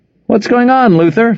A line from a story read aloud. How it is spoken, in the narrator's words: Frohmeyer called out